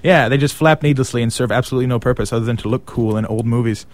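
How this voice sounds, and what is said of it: Ridiculous exaggerated French accent. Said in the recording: “I was just here in character, wasn't I? ... that's me putting on a horrendous French accent ... not silly enough ... more ridiculous”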